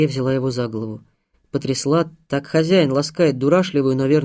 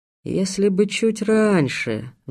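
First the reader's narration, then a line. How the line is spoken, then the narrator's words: Sighing. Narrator (Russian): вздохнул он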